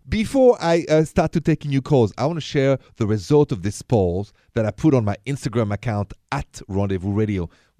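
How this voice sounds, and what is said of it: Thick French accent. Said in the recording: “This thick accent of mine is French, straight from Paris.”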